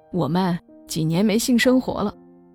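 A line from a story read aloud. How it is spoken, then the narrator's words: Laughing. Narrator (Chinese): 他哈哈一笑说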